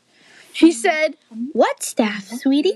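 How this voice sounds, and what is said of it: Sudden put-on accent for mother. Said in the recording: “Did I just do an entire accent change ... you just made an accent ... mother.”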